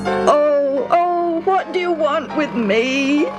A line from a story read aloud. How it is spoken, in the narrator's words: He wailed